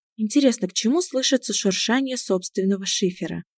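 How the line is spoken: Sigh. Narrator (Russian): Вздохнула она

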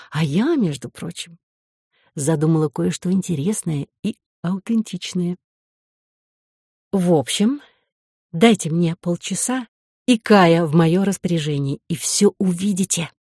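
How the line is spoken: Purring in ear. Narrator (Russian): промурлыкала она ему на ухо

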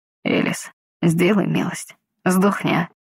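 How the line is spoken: Indistinct mumble. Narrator (Russian): пробормотал невнятно

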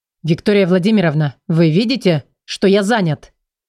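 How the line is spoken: Near growl. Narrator (Russian): Почти прорычал он

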